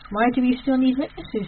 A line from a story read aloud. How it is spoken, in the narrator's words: he asked